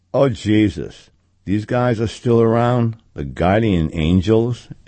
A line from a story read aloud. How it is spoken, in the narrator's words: a nasally young guy groaned